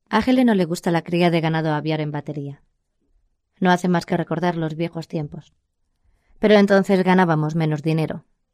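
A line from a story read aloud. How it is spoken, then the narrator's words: Apologetic tone. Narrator (Spanish): En tono de disculpa, Ernie dijo a John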